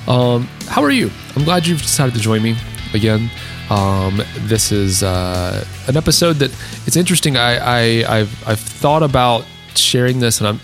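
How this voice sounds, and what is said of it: Deeper, worn-out voice. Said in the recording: “it seems like my voice is a little bit deeper ... my voice is a little bit worn out, so I sound a little bit more radio ready”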